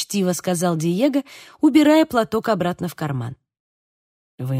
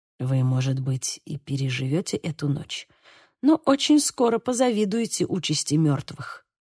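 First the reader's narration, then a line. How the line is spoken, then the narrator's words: Quiet. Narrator (Russian): негромко проговорил шевалье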